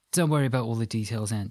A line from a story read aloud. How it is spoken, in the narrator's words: she said